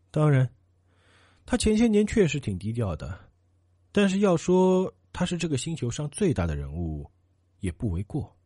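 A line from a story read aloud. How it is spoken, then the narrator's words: Resigned sigh. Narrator (Chinese): 女人无奈的叹道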